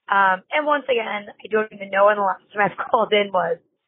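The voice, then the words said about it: Slightly sore voice. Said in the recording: “my voice is not too crazy. It is a little bit sore from being back to teaching.”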